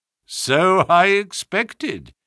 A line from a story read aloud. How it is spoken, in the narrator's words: said Holmes, chuckling